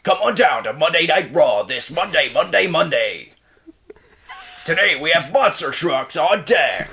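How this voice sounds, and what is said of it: Wrestling show announcer voice. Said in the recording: “I'll do the Monday Night Raw thing... an impression”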